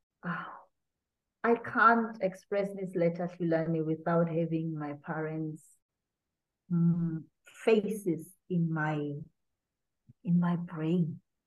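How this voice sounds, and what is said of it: Emotional, wavering voice. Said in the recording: “the tone in my voice is changing. ... you hit emotional notes ... I'm really trying to get back to my strong voice, but I can't.”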